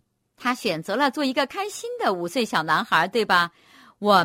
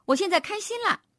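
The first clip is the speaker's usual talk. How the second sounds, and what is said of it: Excited, cheerful child's voice. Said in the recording (Chinese): “用兴奋的声音说”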